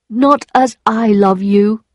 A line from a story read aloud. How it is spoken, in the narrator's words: he cried